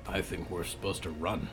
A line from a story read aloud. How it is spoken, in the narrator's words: Hector muttered